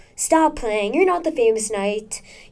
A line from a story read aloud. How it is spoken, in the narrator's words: said, holding back his chuckle